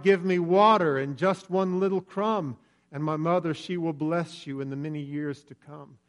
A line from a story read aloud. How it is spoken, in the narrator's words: He cried